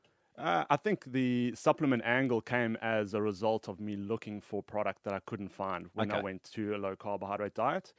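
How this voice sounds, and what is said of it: South African accent. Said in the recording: “South African, that's the accent.”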